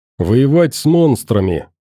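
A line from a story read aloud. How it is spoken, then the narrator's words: Cheerful boy's reply. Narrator (Russian): бодро откликнулся мальчик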